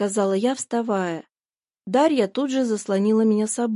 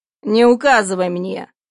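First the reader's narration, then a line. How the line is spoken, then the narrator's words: Barking. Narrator (Russian): рявкнул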